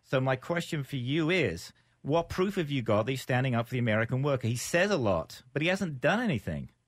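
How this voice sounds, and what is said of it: British-sounding accent. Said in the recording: “I'm an American with a funny accent ... Brit”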